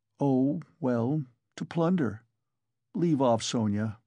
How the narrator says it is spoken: he answered wearily, almost with vexation

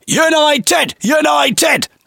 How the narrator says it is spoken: will often shout

